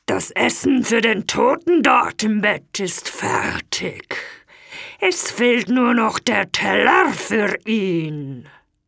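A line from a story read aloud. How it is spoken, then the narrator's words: Monster's terrible voice. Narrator (German): das Ungeheuer sagte dann mit furchtbarer Stimme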